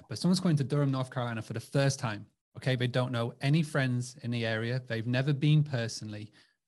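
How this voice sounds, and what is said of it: English accent. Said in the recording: “that's my English accent coming through there”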